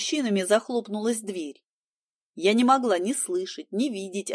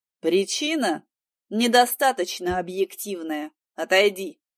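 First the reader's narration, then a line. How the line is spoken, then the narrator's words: Calm request. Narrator (Russian): спокойно попросил Степа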